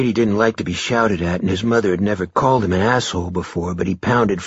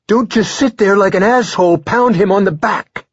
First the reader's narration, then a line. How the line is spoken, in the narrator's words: she shouted at Brady